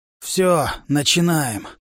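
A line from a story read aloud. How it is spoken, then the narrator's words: Hoarse rasp. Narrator (Russian): прохрипел мученик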